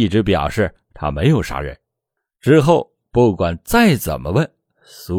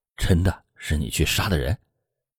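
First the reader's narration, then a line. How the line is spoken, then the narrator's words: Whispered question. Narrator (Chinese): 苏玉的大哥悄声的问他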